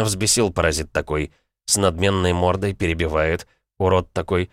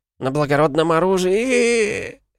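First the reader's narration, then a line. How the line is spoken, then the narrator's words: Rude interjection. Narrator (Russian): Хамски вклинился виконтюшка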